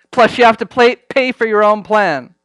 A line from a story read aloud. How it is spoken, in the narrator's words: said with a laugh